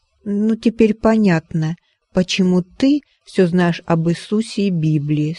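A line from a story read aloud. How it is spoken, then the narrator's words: Plain. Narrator (Russian): сказала она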